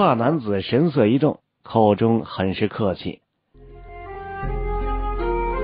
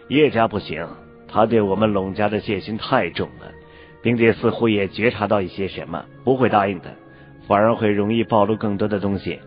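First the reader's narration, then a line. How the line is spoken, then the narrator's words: Cold, sudden remark. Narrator (Chinese): 黑袍男子忽然冷冷地说了一句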